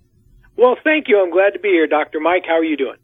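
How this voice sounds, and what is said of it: Excited, energetic voice. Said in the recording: “you sound really excited.”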